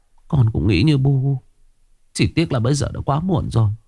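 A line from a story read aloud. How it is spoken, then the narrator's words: Sighing. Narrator (Vietnamese): Thím Lực thở dài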